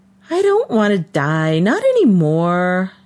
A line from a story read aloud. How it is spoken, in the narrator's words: Charlesy sighed, because he started every session with the same stupid question